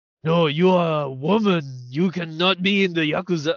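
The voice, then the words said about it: Puts on a character voice. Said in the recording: “do the voice? ... I'm just playing a part”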